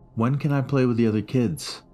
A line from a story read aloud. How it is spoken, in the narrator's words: he asked